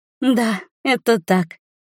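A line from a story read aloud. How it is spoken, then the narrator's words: Giggling. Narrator (Russian): хихикает Ижен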